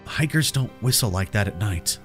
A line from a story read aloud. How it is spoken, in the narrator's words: I whispered